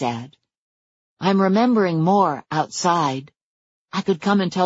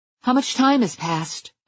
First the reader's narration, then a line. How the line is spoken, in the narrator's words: I asked urgently